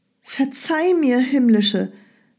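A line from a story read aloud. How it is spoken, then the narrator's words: Calling out. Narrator (German): rief Pyrrha die unsichtbare Göttin an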